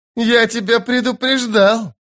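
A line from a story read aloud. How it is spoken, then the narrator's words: Loud laughter. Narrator (Russian): расхохотался казначей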